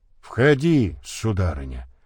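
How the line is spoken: Grumbling. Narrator (Russian): проворчал он

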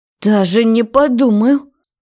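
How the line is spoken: Angry hiss. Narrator (Russian): Зло прошипело

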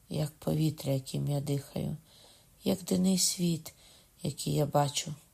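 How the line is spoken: Whisper. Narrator (Ukrainian): прошепотів

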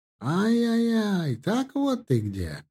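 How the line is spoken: Joyful man, slight accent. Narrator (Russian): радостно спросил мужчина с легким акцентом

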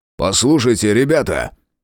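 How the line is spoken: Barked shout. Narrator (Russian): рявкнул Фрейзер

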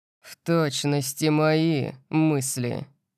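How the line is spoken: Venomous hiss, father. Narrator (Russian): ядовито прошипел отец

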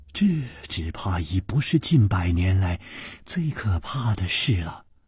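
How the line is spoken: Sighing. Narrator (Chinese): 柳无眉叹道

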